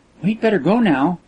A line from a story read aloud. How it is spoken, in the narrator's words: said Kismin sweetly